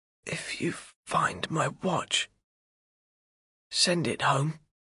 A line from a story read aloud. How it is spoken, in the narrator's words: He whispers